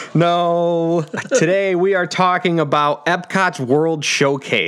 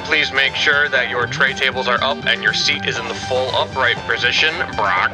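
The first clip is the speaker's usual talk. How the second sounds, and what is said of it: Airline pilot announcement voice. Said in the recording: “my pilot impression? ... It's good. It's good. It's fine. It's very comforting.”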